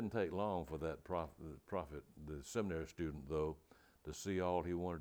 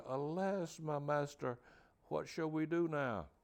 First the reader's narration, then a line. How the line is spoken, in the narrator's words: After blurting out the distressing news, the young man cried out to Elisha